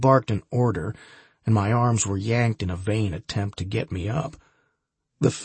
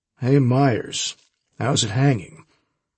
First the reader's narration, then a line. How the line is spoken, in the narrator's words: I mumbled through my mouthful of high-quality rug fibers